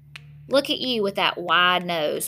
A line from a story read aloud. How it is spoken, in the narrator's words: my reflection says